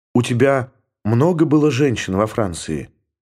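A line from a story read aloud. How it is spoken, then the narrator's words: Whispered. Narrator (Russian): прошептала она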